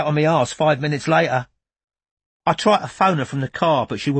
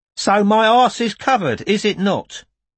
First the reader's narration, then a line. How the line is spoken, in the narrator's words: exhaling said cheerfully